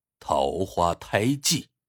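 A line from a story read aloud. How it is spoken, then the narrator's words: Soft. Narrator (Chinese): 莫先生轻声说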